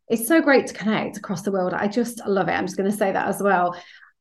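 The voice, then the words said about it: British accent. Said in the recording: “as you can probably tell from my accent, I'm based over here in the UK.”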